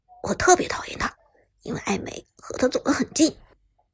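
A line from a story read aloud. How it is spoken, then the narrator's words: Low voice. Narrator (Chinese): 陈烨低声道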